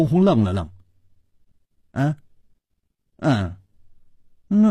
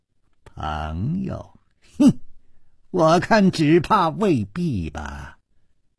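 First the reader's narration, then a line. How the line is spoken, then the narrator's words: Young man sneering. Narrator (Chinese): 那个少年也冷笑着说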